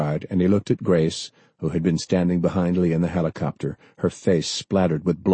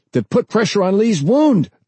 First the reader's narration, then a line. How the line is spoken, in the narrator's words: the medic shouted